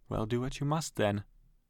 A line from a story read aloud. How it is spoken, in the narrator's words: she says with a sort of sigh